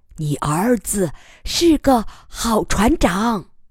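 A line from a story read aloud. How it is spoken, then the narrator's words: Satisfied whisper. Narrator (Chinese): 艾玛母亲 满意的 悄声说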